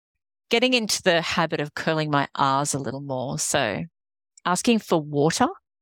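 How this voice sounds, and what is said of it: Australian accent. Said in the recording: “My American accent hasn't really kicked in just yet. ... someone with this accent and they confuse me with your beautiful British accent. No, not British, Australian.”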